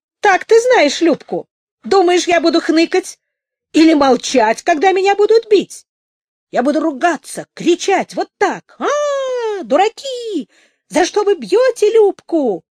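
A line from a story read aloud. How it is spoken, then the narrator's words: Shrieking. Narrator (Russian): завизжала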